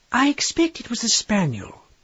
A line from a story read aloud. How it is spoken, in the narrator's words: said the niece calmly